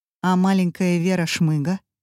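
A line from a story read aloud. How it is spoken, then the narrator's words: Plain. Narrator (Russian): спросила Катя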